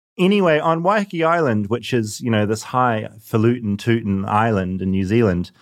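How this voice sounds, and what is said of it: New Zealand accent. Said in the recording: “it's the accent. ... I feel like I've reverted.”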